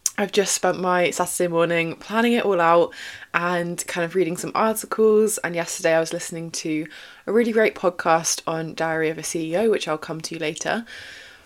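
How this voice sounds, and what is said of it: Excited, energetic voice. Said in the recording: “if you can tell from my voice, I'm really excited”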